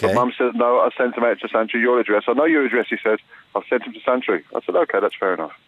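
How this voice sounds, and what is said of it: English Birmingham accent. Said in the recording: “are you English? Just the accent ... I'm from Birmingham, yeah.”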